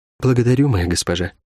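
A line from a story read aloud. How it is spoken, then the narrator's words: Quiet. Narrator (Russian): тихо сказала Рукавичка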